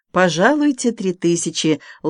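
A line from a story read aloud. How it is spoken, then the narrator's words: Gentle, affectionate. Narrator (Russian): ласково молвила Полина Степановна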